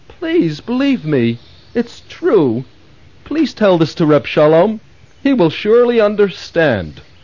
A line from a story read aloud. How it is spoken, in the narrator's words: Reb Leib pleaded